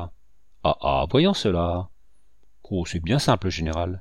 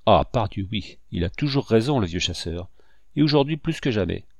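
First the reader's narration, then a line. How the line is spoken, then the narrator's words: Joyful elated exclamation. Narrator (French): s'écria joyeusement Richepense, qui était ivre de bonheur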